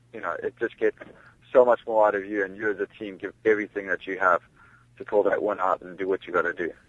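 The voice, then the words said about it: South African accent. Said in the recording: “listening to your accent, you were born and raised in South Africa”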